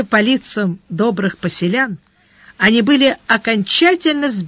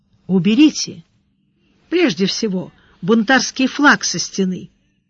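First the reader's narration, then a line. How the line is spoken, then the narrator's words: Gentle advice. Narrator (Russian): мягко посоветовал Сварог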